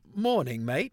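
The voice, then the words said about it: Put-on British accent. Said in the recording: “trying to try in a British accent ... great accent ... I butchered your accent”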